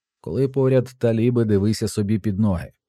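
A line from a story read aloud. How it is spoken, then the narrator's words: Plain. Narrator (Ukrainian): сказав Фарід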